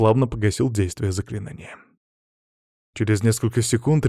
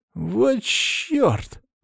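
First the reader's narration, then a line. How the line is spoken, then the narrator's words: Trembling voice. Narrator (Russian): дрожащим голосом проговорил Саня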